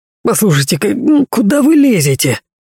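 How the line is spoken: Irritated grumbling. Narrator (Russian): заворчал директор на обтрепанного человека

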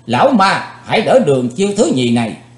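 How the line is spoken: Shout. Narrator (Vietnamese): Chấm dứt tiếng quát, Chí Tôn

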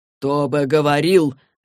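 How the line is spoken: Barking angrily. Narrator (Russian): рявкнул Блэквелл

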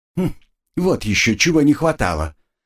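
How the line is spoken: Displeased. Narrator (Russian): Агнесса недовольно продолжила

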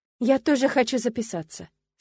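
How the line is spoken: Calm. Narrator (Russian): спокойно сказала я

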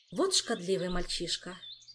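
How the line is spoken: Sighed. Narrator (Russian): вздохнула Кира

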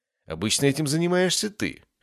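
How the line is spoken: Wry grunt. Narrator (Russian): хмыкнул я

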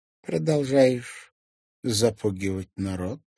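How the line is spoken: Calm inquiry. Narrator (Russian): спокойно осведомился Канто

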